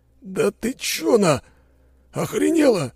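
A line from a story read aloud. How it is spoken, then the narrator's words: Hissed. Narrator (Russian): прошипел Борис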